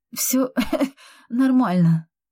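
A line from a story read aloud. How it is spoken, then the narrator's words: Breathless moan. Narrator (Russian): простонала я, пытаясь восстановить дыхание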